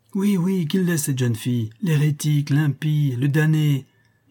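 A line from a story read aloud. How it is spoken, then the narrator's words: Shouted in chorus. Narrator (French): hurlèrent en chœur les autres franciscains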